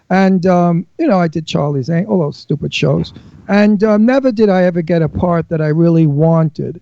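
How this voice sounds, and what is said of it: Brooklyn accent. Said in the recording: “they always cast me as a Brooklyn mafiosa. I don't know why, but I was always a gangster because of my accent.”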